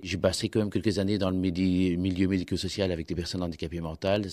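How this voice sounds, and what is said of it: Belgian French accent. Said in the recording (French): “le petit accent... il est plutôt de Belgique”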